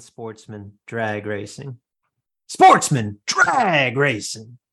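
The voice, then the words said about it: Imitates another person's voice. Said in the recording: “my best Steve Evans impression”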